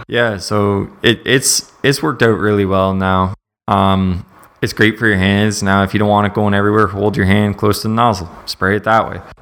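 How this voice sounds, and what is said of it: Slight West Virginia accent. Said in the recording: “I can still hear a West Virginia accent in your voice. ... I still got a little bit of West Virginia in you”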